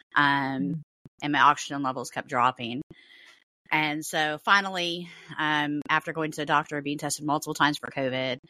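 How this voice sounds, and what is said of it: Voice sounds sick. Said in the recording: “you're going to hear it in my voice ... I have been super sick all week”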